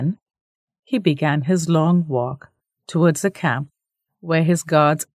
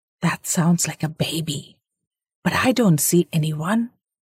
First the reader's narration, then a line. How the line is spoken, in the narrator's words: Jaya whispered